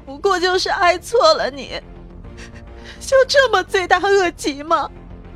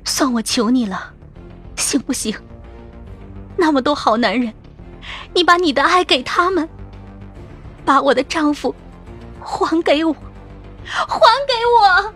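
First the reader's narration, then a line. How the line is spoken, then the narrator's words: Trembling terrified voice. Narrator (Chinese): 蒋迪大惊失色，骇然的，声音哆嗦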